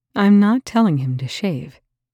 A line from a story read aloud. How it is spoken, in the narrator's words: TJ said flatly